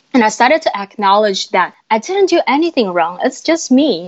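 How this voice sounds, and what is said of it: Speaks with an accent. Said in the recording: “I still got my accent”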